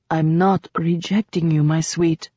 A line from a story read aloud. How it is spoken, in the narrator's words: whispered